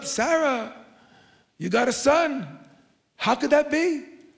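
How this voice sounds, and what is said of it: Put-on Jewish accent. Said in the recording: “That's my Jewish interpretation. I don't know if you noticed that impression.”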